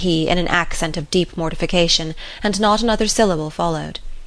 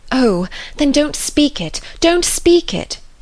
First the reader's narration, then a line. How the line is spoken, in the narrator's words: she eagerly cried